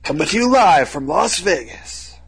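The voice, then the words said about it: Poor Las Vegas announcer voice. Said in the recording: “That was a terrible impression. ... Las Vegas announcer.”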